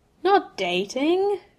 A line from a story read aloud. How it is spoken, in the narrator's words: Seamus grumbled